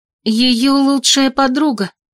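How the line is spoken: Agitated. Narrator (Russian): взволнованно произнесла я

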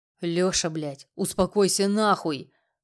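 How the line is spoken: Man growling. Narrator (Russian): прорычал другой мужчина

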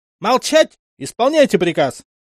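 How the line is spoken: Shrill furious yell. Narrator (Russian): Заорал лейтенант, едва не сорвавшись на визг

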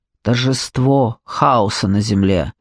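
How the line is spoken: Grumbling troll. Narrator (Russian): проворчал тролль справа

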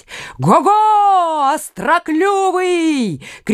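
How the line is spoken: Shouting, egging on. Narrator (Russian): кричал Карл, подзадоривая сокола

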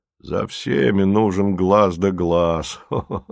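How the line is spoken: Chuckling laugh. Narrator (Russian): хохотнул он совершенно по-храпуновски

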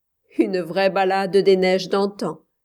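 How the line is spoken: Laughing. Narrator (French): dit-il en riant

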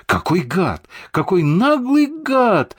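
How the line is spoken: Helpless exclamation. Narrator (Russian): с беспомощным выражением воскликнул Слава Славин

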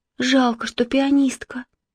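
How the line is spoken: Sighing. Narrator (Russian): вздохнула Марина

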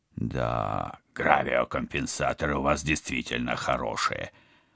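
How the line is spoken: Muttering. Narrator (Russian): пробормотал Вадим

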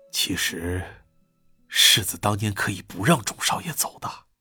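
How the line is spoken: Soft, insinuating. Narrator (Chinese): 敏锐地闻到了一丝半酸不苦的味儿，心里觉得有戏，轻声说道

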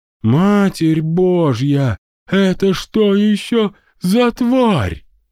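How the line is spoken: Groaning man. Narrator (Russian): простонал Мозес

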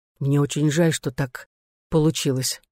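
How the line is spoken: Quiet. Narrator (Russian): негромко сказал Пол

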